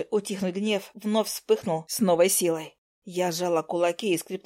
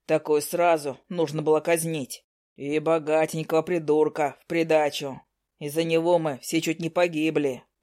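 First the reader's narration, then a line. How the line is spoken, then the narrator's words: Deep bass voice. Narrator (Russian): пробасил третий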